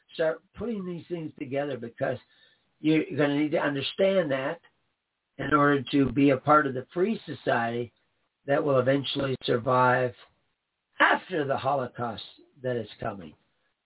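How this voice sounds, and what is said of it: Strained, hoarse voice. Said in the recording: “you can hear me losing my voice already”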